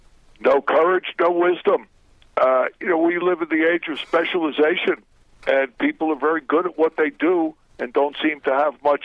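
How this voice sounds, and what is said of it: New York accent. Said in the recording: “born and raised in New York. That's why he's got the cool accent.”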